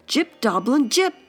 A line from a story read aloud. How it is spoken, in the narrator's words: Fox exclaimed